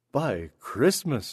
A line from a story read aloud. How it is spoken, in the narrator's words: she exclaimed